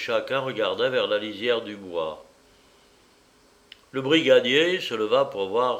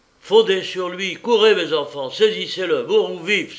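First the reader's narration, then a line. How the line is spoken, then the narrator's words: Officer's shout. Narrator (French): s'écria le brigadier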